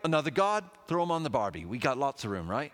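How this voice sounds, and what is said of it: Put-on Australian accent. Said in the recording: “that was supposed to be an Australian accent.”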